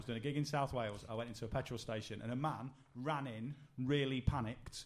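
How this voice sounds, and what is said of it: Usual voice. Nothing is said of it.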